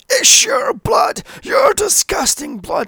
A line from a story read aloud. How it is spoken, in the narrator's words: possessed again … screaming